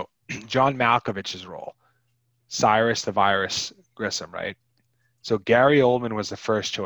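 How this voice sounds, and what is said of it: Usual voice. Nothing is said of it.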